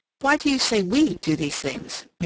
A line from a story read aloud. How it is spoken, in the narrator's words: Mary interposed rather sharply